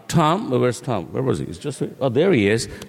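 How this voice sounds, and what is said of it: Voice sounds off, not usual. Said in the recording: “I apologize for my voice. It's not how I sound usually. ... It's just bad allergies.”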